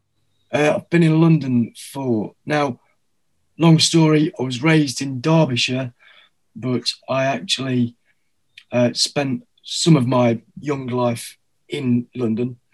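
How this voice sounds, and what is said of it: English Derbyshire accent. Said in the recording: “a Derbyshire accent ... it's plainly not a North London accent.”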